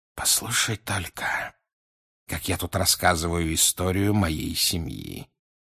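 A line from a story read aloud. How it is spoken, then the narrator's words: Quiet remark. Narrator (Russian): тихо заметил он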